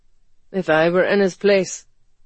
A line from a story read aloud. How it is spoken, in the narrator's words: Ethan said sullenly